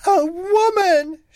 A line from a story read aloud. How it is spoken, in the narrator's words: she cried